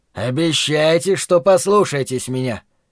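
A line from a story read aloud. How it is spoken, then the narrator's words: Stern. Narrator (Russian): строго сказал нам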